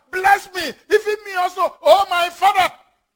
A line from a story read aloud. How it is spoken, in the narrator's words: he cried with a great and exceeding bitter cry and said unto his father